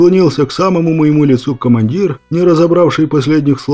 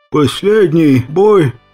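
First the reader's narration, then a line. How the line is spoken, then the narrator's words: Barely audible rasp. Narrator (Russian): прохрипел я едва слышно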